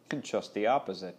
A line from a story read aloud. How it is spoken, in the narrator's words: she said